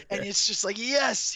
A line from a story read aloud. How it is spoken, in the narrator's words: he yelled